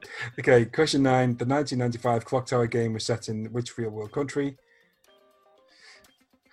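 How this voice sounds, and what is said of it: Usual voice. Nothing is said of it.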